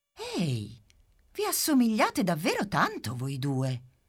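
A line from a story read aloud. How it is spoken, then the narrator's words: Camera exclaiming. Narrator (Italian): esclama la macchina fotografica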